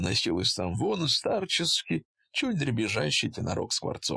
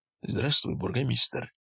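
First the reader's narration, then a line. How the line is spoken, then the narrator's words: Whispered in ear. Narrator (Russian): шепнул Кузьменко на ухо Трубникову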